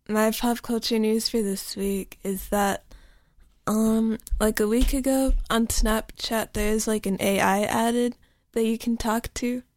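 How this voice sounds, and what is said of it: Groggy, just-woken-up voice. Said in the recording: “my voice sounds groggy because I woke up like less than 10 minutes ago”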